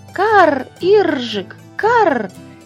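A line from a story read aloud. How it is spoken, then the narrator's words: Cheerful young crows' cries. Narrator (Russian): весело закричали воронята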